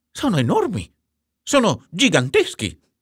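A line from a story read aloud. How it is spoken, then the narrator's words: Exclamation. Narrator (Italian): esclamò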